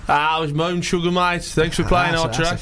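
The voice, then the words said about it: Impersonation of a home-region voice. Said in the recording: “it was just nice to hear a voice from home ... Do the voice. ... That's offensive. ... I'm doing an impersonation.”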